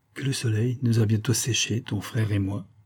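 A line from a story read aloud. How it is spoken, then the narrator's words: Softer tone. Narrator (French): continuai-je d'un ton plus doux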